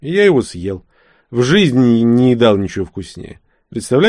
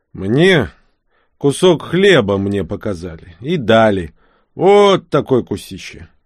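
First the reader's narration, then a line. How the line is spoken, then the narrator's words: Laughing. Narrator (Russian): Вилли засмеялся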